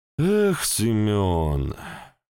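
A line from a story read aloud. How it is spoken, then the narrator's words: Sighing. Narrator (Russian): Вздохнул Шилов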